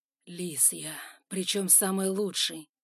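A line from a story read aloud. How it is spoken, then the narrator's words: Through gritted teeth. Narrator (Russian): процедил Тигран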